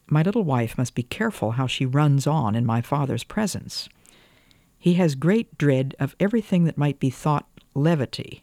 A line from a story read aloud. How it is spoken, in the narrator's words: Ernest said kindly enough, but still said it